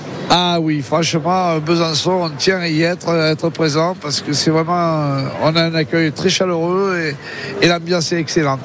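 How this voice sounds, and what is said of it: Southern French accent. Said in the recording (French): “votre accent du sud, ça sent quoi, Marseille, non? ... pas très loin, à côté de Toulon”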